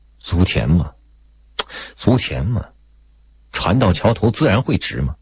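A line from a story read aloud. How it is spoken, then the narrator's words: Mumbling. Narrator (Chinese): 雷明义嘟嘟囔囔说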